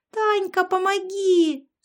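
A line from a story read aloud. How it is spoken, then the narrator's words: Yell. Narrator (Russian): завопила Яшка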